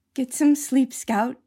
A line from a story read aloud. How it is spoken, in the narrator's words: whispered